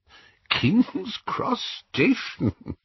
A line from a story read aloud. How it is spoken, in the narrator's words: Dumbledore was chuckling immoderately